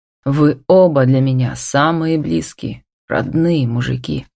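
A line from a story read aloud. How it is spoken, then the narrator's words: Hoarse, choked with emotion. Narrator (Russian): прохрипел он, замечая, что горло свело от избытка чувств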